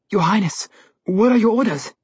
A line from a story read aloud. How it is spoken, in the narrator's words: the huntsman pleaded